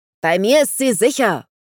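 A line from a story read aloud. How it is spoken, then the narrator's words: Bellowing. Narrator (German): brüllte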